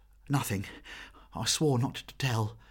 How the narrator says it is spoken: gasped Meg

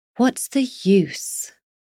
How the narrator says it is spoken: Cavallo sighed

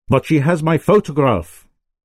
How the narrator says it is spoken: shouted His Majesty

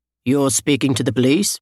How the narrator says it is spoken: the operator said calmly

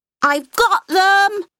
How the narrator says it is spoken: the child cried

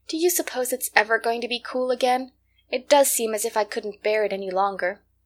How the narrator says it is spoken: sighed

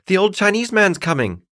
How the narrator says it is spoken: cried the little shepherdess, who was so upset

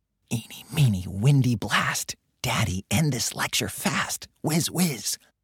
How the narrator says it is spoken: Impishly, Bibi bit her lip and whispered

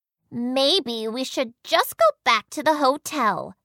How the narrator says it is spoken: Chelsea grumbled

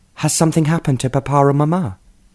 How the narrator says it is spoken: asked anxiously

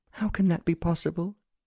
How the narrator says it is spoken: pleaded

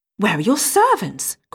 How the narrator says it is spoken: cried she

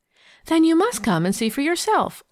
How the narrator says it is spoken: laughed Leslie

